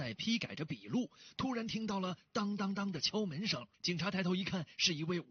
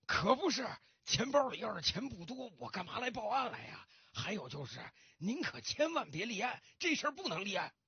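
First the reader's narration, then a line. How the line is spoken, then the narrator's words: Anxious, panting old man. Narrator (Chinese): 这老先生更着急了，他大口大口的喘着粗气，继续说道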